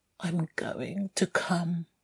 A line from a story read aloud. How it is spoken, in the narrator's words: mumbled